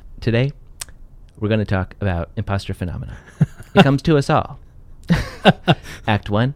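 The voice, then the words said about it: Imitates another person's voice. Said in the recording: “I was focusing on my inner Ira Glass ... That was pretty good. ... That's my Ira Glass impersonation.”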